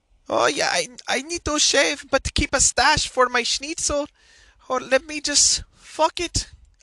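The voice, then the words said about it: Mock German accent. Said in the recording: “to do German, I have to say Schnitzel, and then it sounds like a gay German ... Terrible Impersonations”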